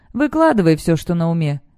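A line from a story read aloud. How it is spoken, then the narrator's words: Lazy reply. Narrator (Russian): лениво отвечает Циммер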